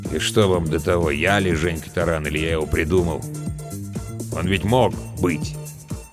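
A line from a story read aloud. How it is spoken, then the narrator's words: Gloomy. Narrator (Russian): мрачно добавил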